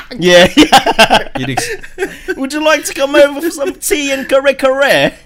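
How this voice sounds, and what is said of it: Put-on posh English accent. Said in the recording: “I think that's like the posh accent, right?”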